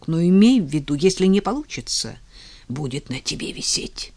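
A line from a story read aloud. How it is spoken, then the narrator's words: Grumbling mutter. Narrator (Russian): Бритоголовый пробурчал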